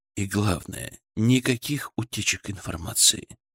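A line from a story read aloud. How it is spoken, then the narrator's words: Gentle request. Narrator (Russian): мягко попросил Удилов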